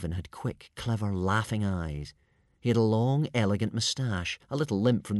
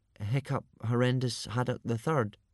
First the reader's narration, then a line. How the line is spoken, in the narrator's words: stammered Hiccup